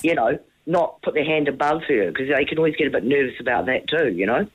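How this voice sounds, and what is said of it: Strong New Zealand Kiwi accent. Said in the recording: “We love your accent. ... It is such a strong Kiwi accent”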